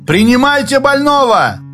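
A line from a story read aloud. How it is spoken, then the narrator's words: Shout. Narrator (Russian): крикнул Ляхов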